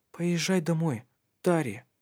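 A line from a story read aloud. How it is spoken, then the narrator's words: Soft. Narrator (Russian): мягко говорила она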